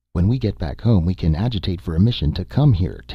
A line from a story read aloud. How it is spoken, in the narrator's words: Tant said